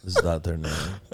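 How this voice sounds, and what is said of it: Imitates another person's voice. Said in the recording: “good David Blaine impression”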